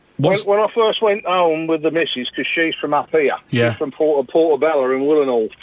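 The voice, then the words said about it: Ipswich accent. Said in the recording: “I can hear your Ipswich now, actually.”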